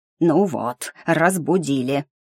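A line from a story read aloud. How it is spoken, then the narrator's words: Hissing gargoyle. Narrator (Russian): прошипела сиреневая горгулья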